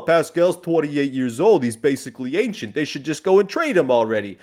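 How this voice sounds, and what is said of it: Put-on New York accent. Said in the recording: “in a weird New York, New Jersey accent”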